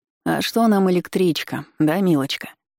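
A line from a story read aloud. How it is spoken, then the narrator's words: Purring. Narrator (Russian): мурлыкал Киселёв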